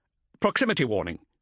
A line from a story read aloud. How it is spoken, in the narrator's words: he explained quickly